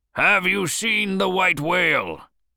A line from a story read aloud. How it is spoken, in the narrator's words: shouted Ahab